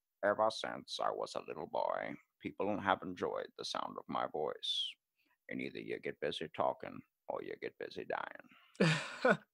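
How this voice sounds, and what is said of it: Morgan Freeman impression. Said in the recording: “I tried for so long to be able to get Morgan Freeman down ... Morgan Freeman's like”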